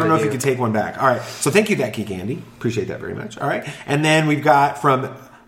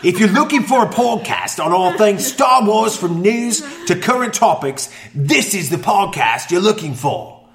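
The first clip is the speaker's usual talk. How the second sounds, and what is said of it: Put-on Australian accent. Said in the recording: “I should try to do it in an Australian accent, because I can do it in an Australian accent. I've got that one down.”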